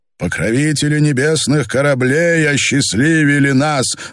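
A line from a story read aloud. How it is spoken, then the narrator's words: Loud repetition. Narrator (Russian): громко повторил Герольд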